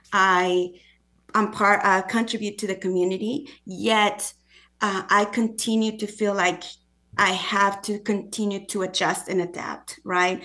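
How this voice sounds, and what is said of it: Non-native English accent. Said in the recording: “my accent. People immediately know I'm not from here”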